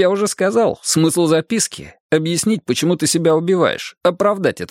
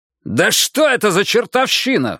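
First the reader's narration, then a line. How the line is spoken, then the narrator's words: Roar. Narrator (Russian): взревел Джаспер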